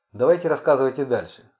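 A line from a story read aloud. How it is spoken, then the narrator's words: Dry. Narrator (Russian): сухо сказал Джеллисон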